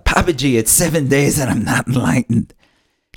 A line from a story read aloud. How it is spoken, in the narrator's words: screamed out